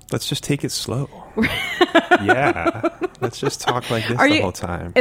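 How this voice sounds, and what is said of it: Slow, sultry voice. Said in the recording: “sexy talk ... Oh, I thought it was sultry ... me trying to talk slow”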